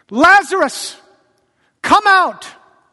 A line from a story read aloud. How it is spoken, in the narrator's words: he called out in a loud voice